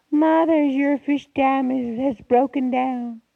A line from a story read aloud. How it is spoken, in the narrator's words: shouted gleefully